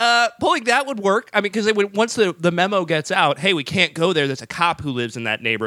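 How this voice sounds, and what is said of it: Usual voice. Nothing is said of it.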